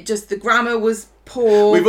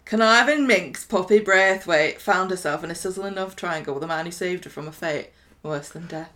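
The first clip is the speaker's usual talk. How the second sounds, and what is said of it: Put-on northern English accent. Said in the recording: “Can I do it in a northern accent?”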